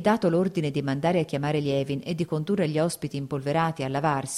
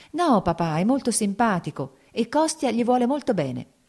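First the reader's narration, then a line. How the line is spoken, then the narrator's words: Smiling, pleading. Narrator (Italian): disse sorridendo Kitty, come a supplicarlo di qualcosa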